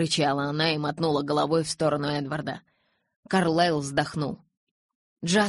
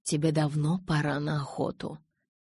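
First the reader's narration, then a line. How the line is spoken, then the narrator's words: Soft. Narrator (Russian): мягко произнес Карлайл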